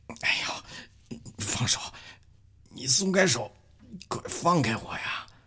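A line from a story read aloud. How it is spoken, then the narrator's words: Strained choked quiet voice. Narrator (Chinese): 畅东方搂着他的脖子搂得太紧了，他脸红脖子粗的小声说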